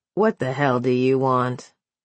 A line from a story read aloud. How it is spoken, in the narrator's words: Cullen ground his teeth before once again smothering a growl